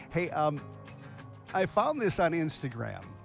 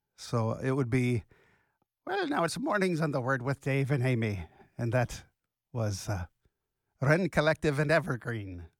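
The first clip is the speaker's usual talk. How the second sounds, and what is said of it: Put-on Irish accent. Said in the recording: “Irish accent. ... Best I can do on short notice. ... my Irish accent”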